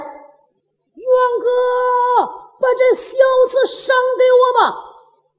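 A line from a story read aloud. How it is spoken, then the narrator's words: Shouting from behind. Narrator (Chinese): 背后有人高喊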